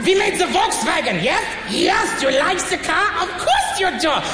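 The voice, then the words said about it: Higher-pitched put-on German accent. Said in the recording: “To go to German, you go a little bit higher, little bit higher... and you have yourself German... the German accent, the most efficient accent”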